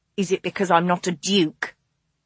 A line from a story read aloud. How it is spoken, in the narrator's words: he hissed